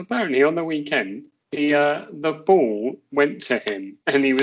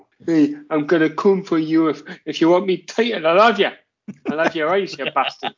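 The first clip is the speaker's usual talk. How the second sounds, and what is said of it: Geordie accent, Steve Bruce impression. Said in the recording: “He's a dirty Geordie heel ... I think there's a great Steve Bruce impression in you, old man”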